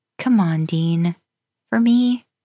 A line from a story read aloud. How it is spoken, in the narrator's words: You smiled sweetly at him